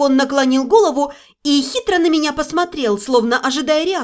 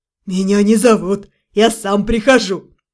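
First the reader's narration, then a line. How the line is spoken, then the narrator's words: Chuckled. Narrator (Russian): хохотнул Глюк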